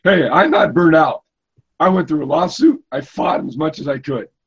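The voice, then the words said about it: Hoarse, strained voice. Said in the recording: “Kind of lost my voice here a little bit.”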